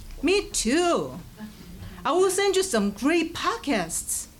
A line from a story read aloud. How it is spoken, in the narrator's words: exclaim